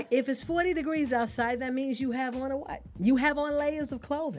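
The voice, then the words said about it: New York accent. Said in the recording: “my accent's coming out. I am from New York.”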